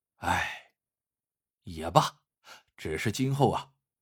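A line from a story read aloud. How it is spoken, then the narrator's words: Heavy sigh, muttering to self. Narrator (Chinese): 老板真不好意思再说什么了，只好重重的叹了口气 一边嘴里自言自语道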